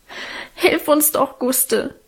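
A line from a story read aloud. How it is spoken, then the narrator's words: Sobbing. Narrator (German): schluchzte Alvine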